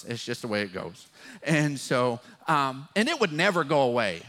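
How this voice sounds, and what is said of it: West Texas drawl. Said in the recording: “my West Texas drawl”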